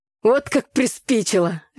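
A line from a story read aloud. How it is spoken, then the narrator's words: Laughing father. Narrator (Russian): рассмеялся отец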